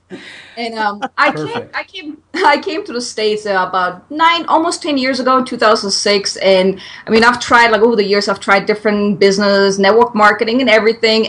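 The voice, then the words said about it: German accent. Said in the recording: “where this weird accent is coming from, I'm German”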